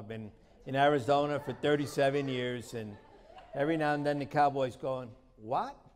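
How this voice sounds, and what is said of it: New York accent. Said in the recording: “I was born in New York City, and if my accent doesn't give me away”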